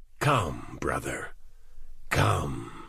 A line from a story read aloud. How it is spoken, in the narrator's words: the man said, his voice a grating rasp